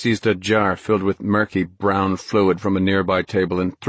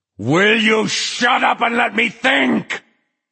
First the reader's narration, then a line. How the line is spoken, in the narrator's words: Flagg howled